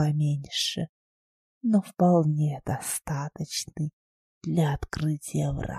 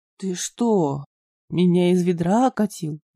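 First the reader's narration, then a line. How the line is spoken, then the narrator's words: Gloomy grumble. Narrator (Russian): мрачно пробурчал Шустов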